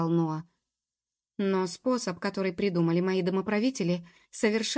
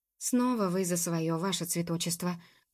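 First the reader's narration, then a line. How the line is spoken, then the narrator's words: Mutter. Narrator (Russian): пробормотала Джуб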